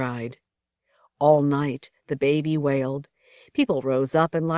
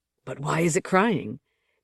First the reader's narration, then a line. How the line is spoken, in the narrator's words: Bella whispered